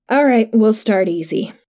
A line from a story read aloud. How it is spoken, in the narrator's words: Ryan sighed